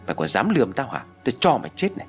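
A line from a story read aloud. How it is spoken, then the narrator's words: Loud shout. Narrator (Vietnamese): Hà quát lớn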